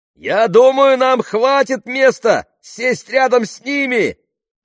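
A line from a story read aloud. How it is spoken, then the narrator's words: Shouted. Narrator (Russian): крикнул Джереми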